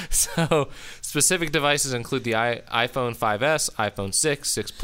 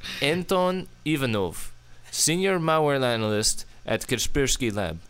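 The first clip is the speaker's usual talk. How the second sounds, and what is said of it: Reads name in put-on accent. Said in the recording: “You're supposed to do that in your accent.”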